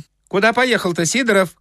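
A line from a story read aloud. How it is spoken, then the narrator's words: Shouting. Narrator (Russian): кричал кондуктор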